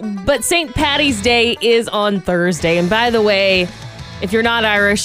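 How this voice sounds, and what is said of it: Usual voice. Nothing is said of it.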